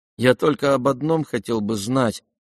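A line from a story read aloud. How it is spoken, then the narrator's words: Glum remark. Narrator (Russian): уныло заметил князь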